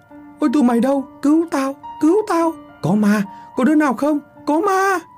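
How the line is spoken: Old man's panicked scream. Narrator (Vietnamese): từ nhà lão biểu vang lên tiếng của lão thét lên

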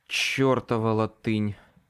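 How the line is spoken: Exhaled. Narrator (Russian): выдохнул я

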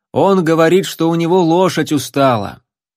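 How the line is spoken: Loud. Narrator (Russian): громко произнес

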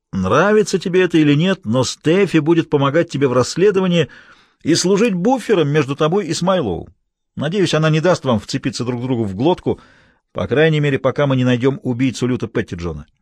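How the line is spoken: Shouting in ear. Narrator (Russian): прокричал ему в ухо

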